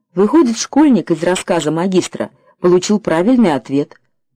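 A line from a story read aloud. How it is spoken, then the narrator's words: Plain. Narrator (Russian): спросил президент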